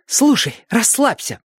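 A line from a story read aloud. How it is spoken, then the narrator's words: Sharp inner voice. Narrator (Russian): мысленно прикрикнул на нее Али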